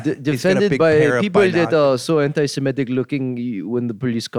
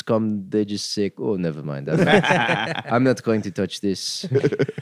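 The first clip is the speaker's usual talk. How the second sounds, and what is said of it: Put-on Hasidic Jewish accent. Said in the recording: “That's a good Hasid accent because it's weird. It's not Israel. It's not Israeli quite.”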